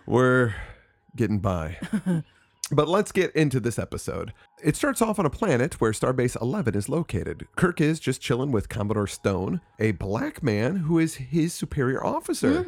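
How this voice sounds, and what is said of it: Raspy voice from a cold. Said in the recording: “I have a very bad cold, so I'm a little raspy.”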